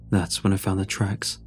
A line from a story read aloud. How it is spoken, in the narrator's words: he said